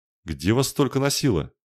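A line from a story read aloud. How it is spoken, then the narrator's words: Exclaiming. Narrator (Russian): воскликнул Мелир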